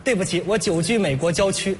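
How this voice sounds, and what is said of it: Heavy Northeastern Chinese accent. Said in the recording (Chinese): “你东北口音挺重 ... 我这是模仿你父亲的口吻”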